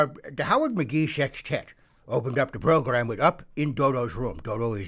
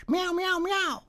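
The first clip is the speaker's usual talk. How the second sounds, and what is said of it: Passable cat impression. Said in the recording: “could do a passable cat impression”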